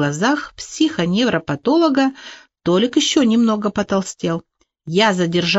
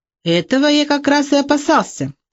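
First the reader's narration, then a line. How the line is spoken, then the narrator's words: Agitated exclamation. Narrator (Russian): в волнении воскликнул Моисей Григорьевич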